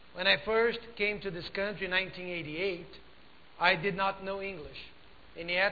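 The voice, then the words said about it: Non-native English accent. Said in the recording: “I don't know what you're going to do about my accent here this morning”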